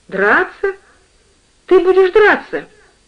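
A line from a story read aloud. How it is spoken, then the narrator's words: Exclaiming. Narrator (Russian): Мать воскликнула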